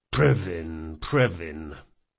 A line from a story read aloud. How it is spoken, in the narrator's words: muttered one of the guards